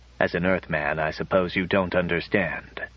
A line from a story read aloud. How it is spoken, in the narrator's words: After a pause, he said more quietly